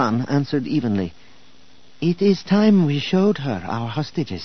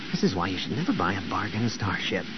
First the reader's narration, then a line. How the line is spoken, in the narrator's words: Luke grumbled